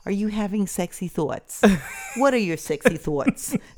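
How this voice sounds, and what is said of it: New York accent impression. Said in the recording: “I love her accent. ... I figured she lived in New York at some point. ... She's a New Yorker who moved to Florida.”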